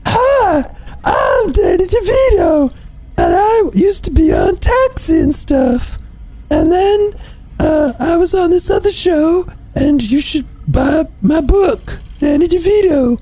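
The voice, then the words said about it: Comic imitation of a cartoon-like voice. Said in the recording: “He's doing a Fozzie Bear impression ... It's a Fozzie Bear impression”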